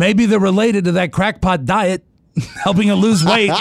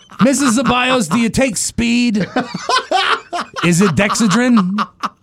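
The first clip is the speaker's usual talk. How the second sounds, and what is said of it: Larry King impression. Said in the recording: “my Larry King impression”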